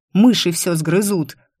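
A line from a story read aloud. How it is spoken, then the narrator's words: Barked. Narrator (Russian): рявкнула я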